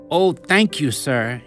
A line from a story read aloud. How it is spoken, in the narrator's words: she exclaimed